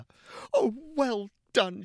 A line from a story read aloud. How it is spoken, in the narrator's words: cried